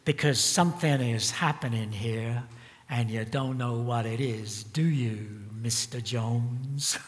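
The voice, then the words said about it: Cynical sung impression of a singer. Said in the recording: “he sings in a kind of a cynical way ... That was my Dylan impersonation”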